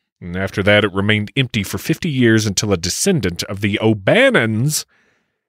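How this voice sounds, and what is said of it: Usual voice. Nothing is said of it.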